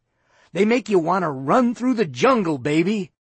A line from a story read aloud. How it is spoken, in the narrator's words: said happily